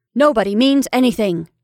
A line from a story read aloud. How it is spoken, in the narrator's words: said Caroline firmly